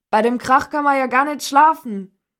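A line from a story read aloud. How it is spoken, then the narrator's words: Bellowing. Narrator (German): brüllte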